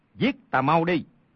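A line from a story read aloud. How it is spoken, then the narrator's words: Shouting. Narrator (Vietnamese): Triết Biệt không hề đón đỡ, quát lên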